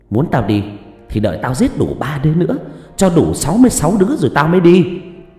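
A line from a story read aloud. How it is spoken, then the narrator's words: Shrill screeching. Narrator (Vietnamese): Nó hét lên choe choé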